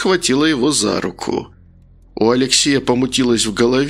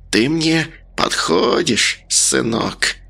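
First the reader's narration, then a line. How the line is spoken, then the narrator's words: Female hiss. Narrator (Russian): Она прошипела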